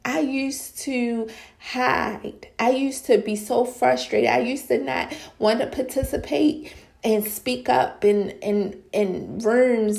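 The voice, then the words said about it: Speaks with a noticeable accent. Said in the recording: “because of my accent. Come on, y'all hear it because of my accent”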